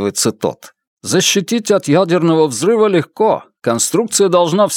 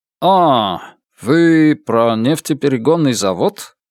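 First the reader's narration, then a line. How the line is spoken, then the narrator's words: Uncertain, German man. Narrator (Russian): неуверенно произносит немец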